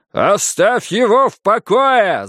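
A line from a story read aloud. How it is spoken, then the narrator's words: Yelling. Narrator (Russian): завопил я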